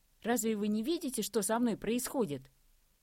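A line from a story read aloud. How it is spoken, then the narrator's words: Sudden hysterical falsetto. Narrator (Russian): Вдруг воскликнул истерично, перейдя на фальцет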